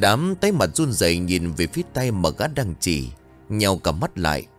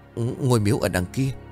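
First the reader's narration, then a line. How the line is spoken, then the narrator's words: Trembling, breathless stammer. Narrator (Vietnamese): run rẩy, đắp bắp nói không ra hơi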